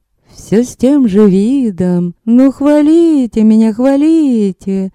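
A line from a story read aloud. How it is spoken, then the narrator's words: Shy drawl. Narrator (Russian): застенчиво протянула Танька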